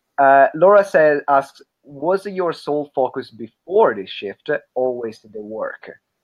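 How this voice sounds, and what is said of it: Strong Italian accent. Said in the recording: “I have a very strong Italian accent, as you can hear”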